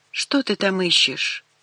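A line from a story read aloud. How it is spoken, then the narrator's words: Tired question. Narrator (Russian): устало спросила я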